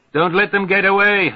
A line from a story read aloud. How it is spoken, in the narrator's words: Haftung hollers